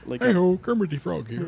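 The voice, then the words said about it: Kermit the Frog Muppet impression. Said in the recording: “I sound like a Muppet. ... celebrity impressions”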